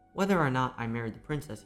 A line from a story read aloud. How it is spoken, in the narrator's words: he said